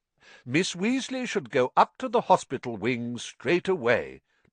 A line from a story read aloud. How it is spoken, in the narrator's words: Dumbledore interrupted in a firm voice